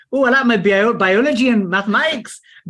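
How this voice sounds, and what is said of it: Poor put-on Geordie accent. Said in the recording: “Could have gone to Geordie there... Sorry, my accents are terrible... you do the Geordie one”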